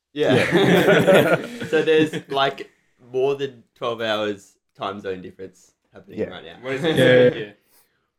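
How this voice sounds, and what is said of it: Australian accent. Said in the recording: “we're from Australia... if you couldn't tell by the accent.”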